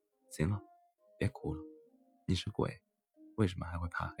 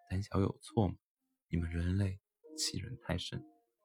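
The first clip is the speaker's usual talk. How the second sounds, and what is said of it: Quiet, tearful muttering. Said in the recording (Chinese): “女鬼带着哭腔，声音小声的自言自语着”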